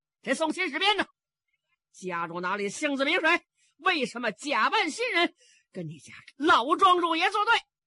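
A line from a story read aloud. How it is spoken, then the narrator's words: Loud shouting. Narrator (Chinese): 黄龙凤高声喊嚷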